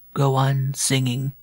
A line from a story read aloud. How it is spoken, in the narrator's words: said faintly